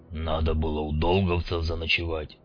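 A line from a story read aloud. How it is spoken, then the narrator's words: Grumble. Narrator (Russian): буркнул он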